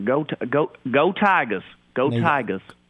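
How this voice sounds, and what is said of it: Put-on Southern accent. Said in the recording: “Can you give me a Southern Go Tigers? ... Are you better than Brian Kelly at the Southern accent?”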